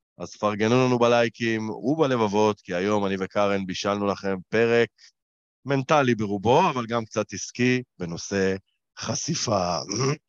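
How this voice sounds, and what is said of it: Hoarse voice. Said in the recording (Hebrew): “יצא לי צרוד.”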